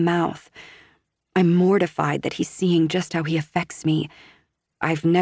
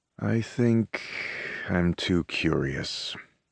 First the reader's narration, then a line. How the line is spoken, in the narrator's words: he murmurs finally